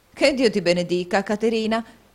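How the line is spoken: Lively exclamation. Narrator (Italian): esclamò la signora Nickleby con la sua solita vivacità

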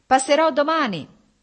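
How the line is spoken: Shout. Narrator (Italian): gli gridò Stepan Arkadyč

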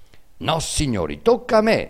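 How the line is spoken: Trumpeter's shrill cry. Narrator (Italian): strillò Arnolfo, il trombettiere

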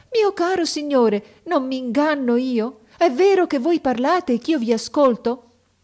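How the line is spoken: Sorceress exclaiming. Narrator (Italian): la maga esclamò

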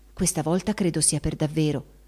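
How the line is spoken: Confidential whisper. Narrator (Italian): sussurrò in confidenza

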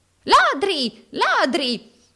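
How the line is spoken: Usurer shrieking. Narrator (Italian): strillò l'usuraio

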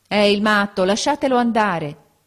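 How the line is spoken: Several voices exclaiming. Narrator (Italian): esclamarono alcuni

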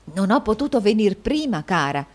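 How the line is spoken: Low voice. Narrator (Italian): disse a voce bassa

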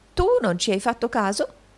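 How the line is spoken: Collector exclaiming. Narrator (Italian): esclamò il riscossore

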